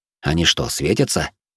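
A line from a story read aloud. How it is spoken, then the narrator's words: Muttering under breath. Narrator (Russian): буркнул я себе под нос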